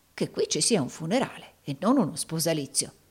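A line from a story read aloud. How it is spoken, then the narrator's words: Guarded undertone. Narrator (Italian): disse Rodolfo, parlando suo malgrado sottovoce e guardingo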